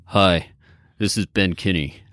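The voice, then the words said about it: Deep imitated male voice. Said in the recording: “my Ben impression... His voice exactly is so right. deep, right? That's exactly right.”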